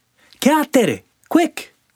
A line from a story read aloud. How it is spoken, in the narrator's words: cried Sandy